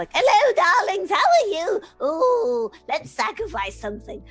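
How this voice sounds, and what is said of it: Old lady character voice. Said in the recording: “old lady voice ... I've been doing an old lady”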